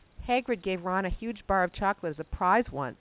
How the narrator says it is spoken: said Neville

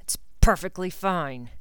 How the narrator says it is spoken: he snarled

